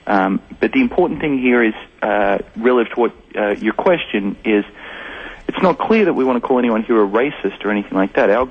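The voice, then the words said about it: New Jersey accent. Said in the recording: “that's an interesting accent. Is it New Jersey? ... You bet it is.”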